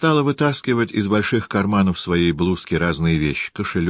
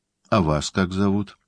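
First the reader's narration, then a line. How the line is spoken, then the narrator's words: Timid question. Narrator (Russian): спросил робко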